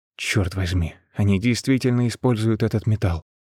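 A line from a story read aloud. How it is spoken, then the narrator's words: Muttered. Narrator (Russian): пробормотал он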